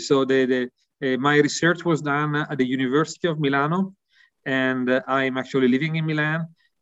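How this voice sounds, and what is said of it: Strong Italian accent. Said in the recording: “my accent, I think, is quite clear, really Italian”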